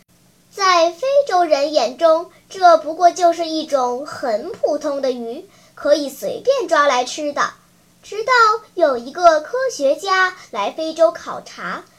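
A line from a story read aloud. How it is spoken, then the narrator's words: Holding back laughter. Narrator (Chinese): 小依依忍住笑，接着说道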